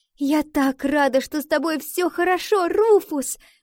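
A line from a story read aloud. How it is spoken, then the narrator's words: Exclaiming. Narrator (Russian): воскликнула Валентина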